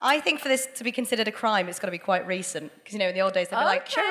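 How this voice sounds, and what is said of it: Usual voice. Nothing is said of it.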